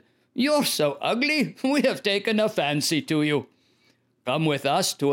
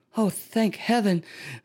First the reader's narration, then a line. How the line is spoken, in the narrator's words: sighed the ugly duckling